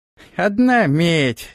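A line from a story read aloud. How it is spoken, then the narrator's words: Displeased grumble. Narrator (Russian): недовольно пробурчал он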